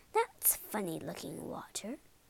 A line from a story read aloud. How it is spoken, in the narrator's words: muttered Mrs